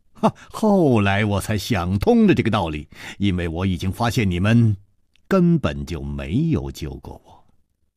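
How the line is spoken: Smiling. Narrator (Chinese): 楚留香笑了笑接着说

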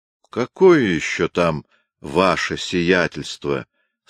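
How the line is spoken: Plain. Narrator (Russian): спросил фельдмаршал

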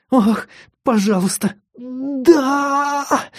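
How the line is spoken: Whimpering. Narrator (Russian): захныкала она

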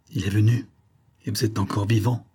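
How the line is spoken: Hoarse demonic exclamation. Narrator (French): s'exclama le démon d'une voix rauque

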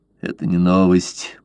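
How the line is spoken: Gruff mutter. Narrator (Russian): буркнул Блад

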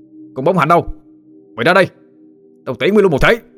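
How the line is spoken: Shouting. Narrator (Vietnamese): Tâm quát lên

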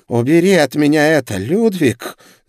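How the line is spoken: Angry hiss. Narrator (Russian): зло прошипела она

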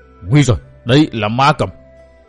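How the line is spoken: Trembling voice. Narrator (Vietnamese): Thiên Bất Thâu cất tiếng run run nói

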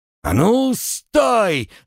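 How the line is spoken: Yelled. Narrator (Russian): заорал мужик

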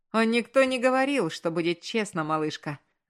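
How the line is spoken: Laughing. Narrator (Russian): засмеялся он

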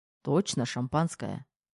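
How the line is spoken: Calm, assertive. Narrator (Russian): произнес спокойно и утвердительно

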